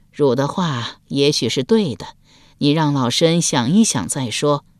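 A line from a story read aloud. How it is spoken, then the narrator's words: Old woman soft sigh. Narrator (Chinese): 太皇太后受到了感染，轻叹一声说道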